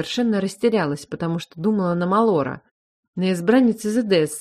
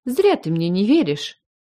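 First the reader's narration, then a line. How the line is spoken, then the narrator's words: Offended. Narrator (Russian): заявила обиженно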